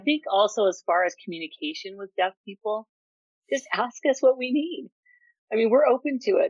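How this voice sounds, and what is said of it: Deaf speaker's accent. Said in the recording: “you have an accent? I'm like, yeah, it's because I'm deaf and I don't hear things the way that everybody does”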